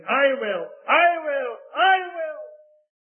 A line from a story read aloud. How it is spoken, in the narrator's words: 500 men jumped to their feet, their faces wept to their tears, shouting from all parts of the building